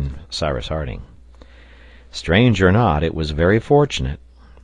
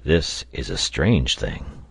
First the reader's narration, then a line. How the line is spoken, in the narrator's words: said the reporter to him in a low voice